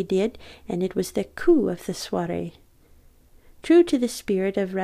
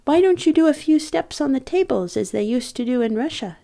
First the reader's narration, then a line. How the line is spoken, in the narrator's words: From bravado, I called out